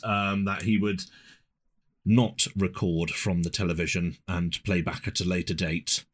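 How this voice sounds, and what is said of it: Whispering. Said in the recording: “Why are you whispering that into Ed's ear? ... It's actually whispering into the microphone ... So that the listeners can hear my whispers.”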